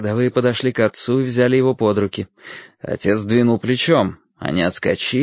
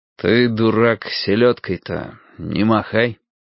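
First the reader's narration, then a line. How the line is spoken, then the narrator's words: Quiet, through clenched teeth. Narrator (Russian): тихо сквозь зубы сказал отец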